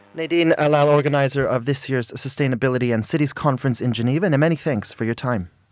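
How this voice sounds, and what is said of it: Put-on sexy voice. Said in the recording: “almost sexy ... very well done ... putting on a little voice”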